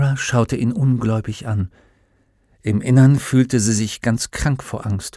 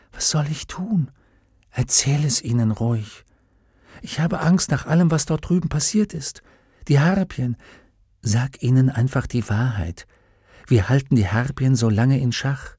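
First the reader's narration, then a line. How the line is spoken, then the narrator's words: Whispered question. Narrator (German): Lyra fragte Will im Flüsterton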